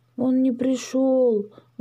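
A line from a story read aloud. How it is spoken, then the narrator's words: Sighing. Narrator (Russian): вздохнул Дракоша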